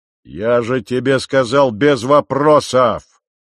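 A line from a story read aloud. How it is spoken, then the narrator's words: Growl. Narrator (Russian): прорычал он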